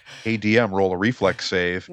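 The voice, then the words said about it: Smarmy, smug mocking voice. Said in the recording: “in your smarmiest voice”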